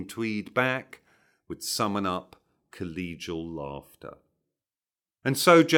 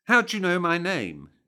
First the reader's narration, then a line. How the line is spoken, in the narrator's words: she snapped back